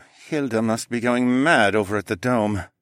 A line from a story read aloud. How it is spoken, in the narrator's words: Mateo mumbled